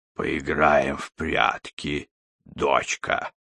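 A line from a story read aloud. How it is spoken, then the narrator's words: Hoarse monster. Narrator (Russian): хрипит монстр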